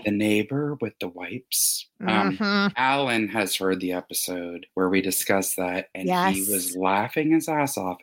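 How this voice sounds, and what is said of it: Lowered, whispery voice. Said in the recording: “whispering? ... Lowering my voice. I am.”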